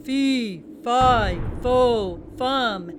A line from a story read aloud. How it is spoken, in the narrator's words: the thunder of giant footsteps and a booming